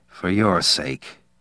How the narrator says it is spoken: Al said quietly

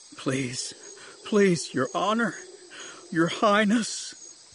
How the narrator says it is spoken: he sobbed, face down into the jungle floor

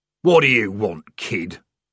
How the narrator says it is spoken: growled

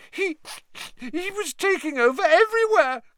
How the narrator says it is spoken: gasped Pettigrew

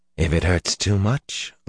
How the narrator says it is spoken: Luce Theron laughed in a hoarse whisper

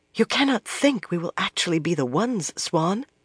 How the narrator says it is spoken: whispered

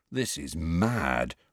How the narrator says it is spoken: Ron murmured

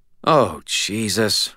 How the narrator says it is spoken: Murphy said, her tone more disgusted than afraid

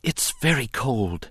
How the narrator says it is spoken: he managed to whisper

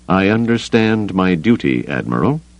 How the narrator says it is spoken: Brandeis said stiffly

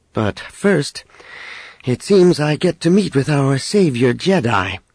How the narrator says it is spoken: Leia added dryly

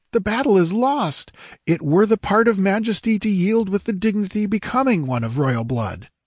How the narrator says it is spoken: cried the squire in great perturbation

